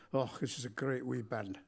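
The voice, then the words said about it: Imitated Glaswegian Scottish accent. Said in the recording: “said in his Glaswegian accent”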